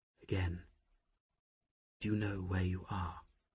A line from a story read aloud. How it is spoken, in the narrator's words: Flammarion murmured